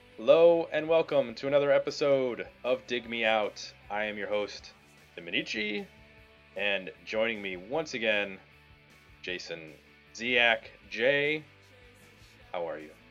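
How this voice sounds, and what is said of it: Extra deep radio-style voice. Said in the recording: “You got the extra deep voice on tonight... I'm working on my radio voice”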